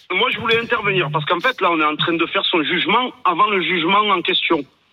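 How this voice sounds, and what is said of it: Slight regional French accent. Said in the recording (French): “avec ce petit accent”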